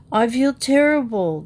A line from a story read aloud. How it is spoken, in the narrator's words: groaned Jody from the upper bunk